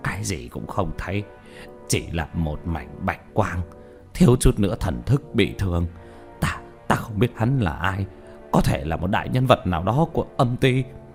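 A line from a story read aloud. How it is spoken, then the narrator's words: Dazed, frightened mutter. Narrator (Vietnamese): Nhất Tâm vẻ mặt mờ mịt sợ hãi, lẩm bẩm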